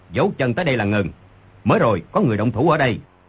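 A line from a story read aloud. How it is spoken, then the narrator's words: Sudden sharp shout. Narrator (Vietnamese): Người đi đầu đột nhiên quát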